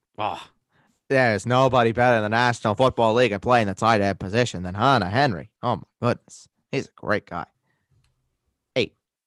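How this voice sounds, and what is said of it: Put-on regional accent. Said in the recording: “Are you going to keep this accent”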